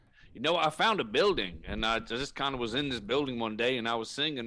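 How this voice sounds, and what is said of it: Put-on preacher accent. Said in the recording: “I started putting on an accent, pretended to be a preacher ... I adopted this accent. Because people take me more seriously when I talk like this. So if you hear it slip ... Or some other place that's not the accent that you've got there.”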